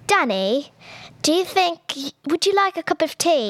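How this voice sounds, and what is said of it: Put-on English accent. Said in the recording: “Can you do English accent?... Very good one.”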